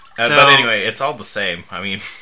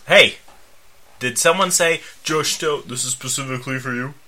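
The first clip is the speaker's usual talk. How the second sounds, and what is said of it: Imitates another person's voice. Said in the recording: “Did you do my voice like that? That's not what my voice sounds like.”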